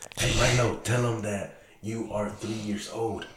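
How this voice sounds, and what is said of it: Whispering. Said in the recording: “I'll whisper. But you got to be loud, okay? I'll whisper to you.”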